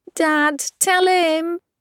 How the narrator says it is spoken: screeches the girl

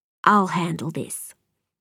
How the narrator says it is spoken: say quietly

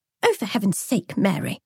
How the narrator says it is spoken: the girl snapped

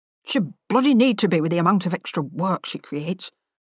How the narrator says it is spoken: muttered

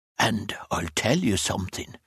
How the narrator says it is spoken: A grin spread over Broderick's large, flat, red countenance, and he whispered

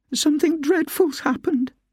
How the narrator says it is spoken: cried

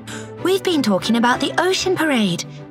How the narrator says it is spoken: said Delphina excitedly

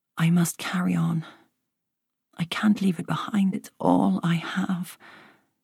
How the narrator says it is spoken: she muttered

